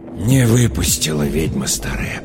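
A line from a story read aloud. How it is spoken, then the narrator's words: Whisper. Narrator (Russian): прошептал Михаил Матвеевич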